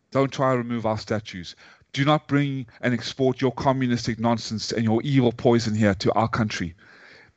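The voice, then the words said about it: British or South African accent. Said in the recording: “I have a British accent or a South African one”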